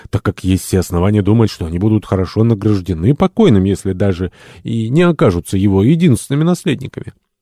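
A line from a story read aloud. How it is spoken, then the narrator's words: Exclamation. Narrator (Russian): воскликнул Томас Карлейль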